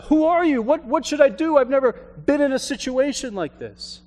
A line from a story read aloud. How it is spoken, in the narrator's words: the hiker yelled up